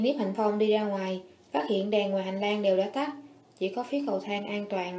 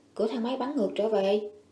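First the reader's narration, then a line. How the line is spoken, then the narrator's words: Whispered, repeated. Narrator (Vietnamese): thì thào lặp lại một lần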